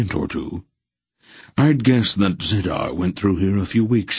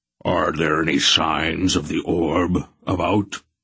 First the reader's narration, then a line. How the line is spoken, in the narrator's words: Barak rumbled